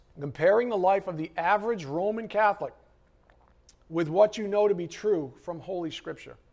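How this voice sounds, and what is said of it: Strained, fading voice. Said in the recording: “I'm almost losing my voice”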